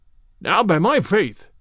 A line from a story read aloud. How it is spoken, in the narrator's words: cried the cook